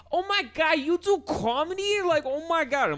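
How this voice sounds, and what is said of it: Put-on New York accent. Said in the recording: “that's such a hot accent ... you guys have the dumbest accent”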